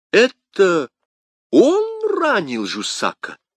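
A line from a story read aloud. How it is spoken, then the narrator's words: Exclaimed. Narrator (Russian): воскликнул король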